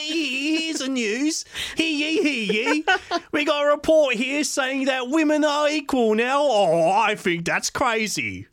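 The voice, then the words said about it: Caricatured London accent. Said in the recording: “caricatured London where everyone's like ... join me with an accent.”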